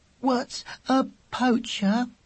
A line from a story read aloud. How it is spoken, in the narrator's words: asked Weasel in a shaky voice